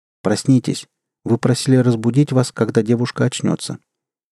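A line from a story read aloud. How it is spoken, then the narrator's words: Quiet. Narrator (Russian): Странный человек негромко произнес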